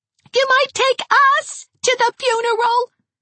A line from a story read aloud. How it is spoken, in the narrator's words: shrieked Gerald